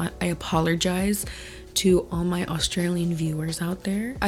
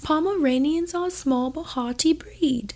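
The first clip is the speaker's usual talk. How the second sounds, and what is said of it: Poor attempt at Australian accent. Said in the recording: “That's my Aussie accent. Don't judge it, y'all. That was my failed attempt at an Aussie accent”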